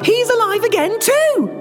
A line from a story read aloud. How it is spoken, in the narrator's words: shouted Miriam